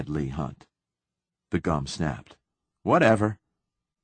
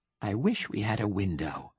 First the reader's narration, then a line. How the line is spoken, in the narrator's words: whispered Leigh Hunt